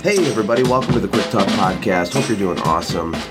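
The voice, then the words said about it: Congested, weird-sounding voice. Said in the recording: “I have a little bit of a cold, so my voice sounds weird ... My voice just sounds weird.”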